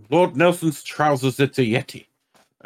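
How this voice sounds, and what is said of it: Cartoon character voice impression. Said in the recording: “What is that voice? ... That's Nigel Thornberry, played by Tim Curry.”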